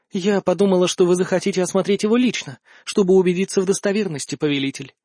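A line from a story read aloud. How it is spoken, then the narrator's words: Calm. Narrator (Russian): спокойно сказала Альканиэль в ответ на мое изумление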